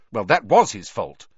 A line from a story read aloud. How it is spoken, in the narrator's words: said Hermione testily